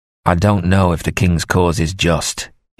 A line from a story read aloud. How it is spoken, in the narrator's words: said harshly